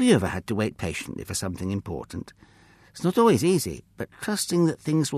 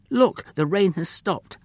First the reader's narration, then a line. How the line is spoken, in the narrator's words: Ham shouted excitedly